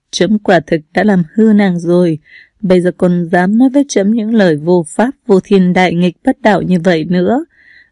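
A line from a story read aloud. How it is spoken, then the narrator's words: Bursting into laughter. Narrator (Vietnamese): Minh Uyên bật cười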